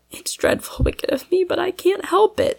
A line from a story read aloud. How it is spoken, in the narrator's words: she sobbed to herself